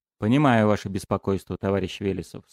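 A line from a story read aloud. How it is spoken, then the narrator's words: Plain. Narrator (Russian): сказал Кременецкий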